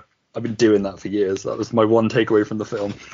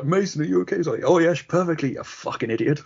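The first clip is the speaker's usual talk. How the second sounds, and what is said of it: Impersonation of a film character. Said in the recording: “Great impersonation”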